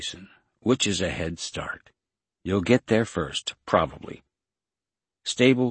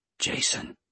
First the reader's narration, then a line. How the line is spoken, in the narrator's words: a voice whispered, this one not in his head